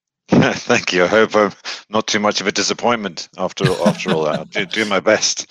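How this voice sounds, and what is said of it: British accent. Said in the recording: “you've got a, a, a, brilliant accent ... that like great British accent”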